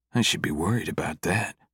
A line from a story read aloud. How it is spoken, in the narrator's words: Cam mutters under his breath